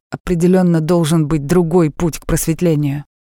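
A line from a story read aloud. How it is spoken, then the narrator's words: Dying man crying out. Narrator (Russian): Лежа там почти при смерти, он выкрикнул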